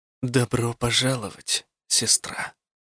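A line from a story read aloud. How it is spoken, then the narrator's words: Young woman's whisper. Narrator (Russian): прошептала молодая худая женщина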